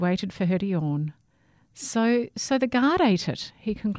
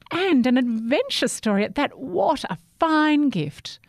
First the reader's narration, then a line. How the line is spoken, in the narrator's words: exclaimed